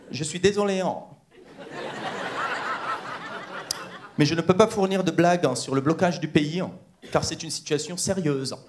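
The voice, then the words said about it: Imitated ChatGPT voice. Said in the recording (French): “je vous fais l'accent qui me semble cohérent pour chat GPT”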